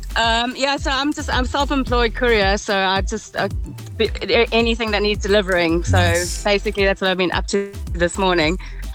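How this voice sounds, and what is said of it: Cheerful voice, hint of South African accent. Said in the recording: “you sound very cheerful ... You've got a nice voice. Do I hear a hint of an accent in there? ... I'm South African.”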